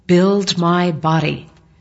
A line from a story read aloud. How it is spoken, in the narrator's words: the Lord said to me in a clear and audible voice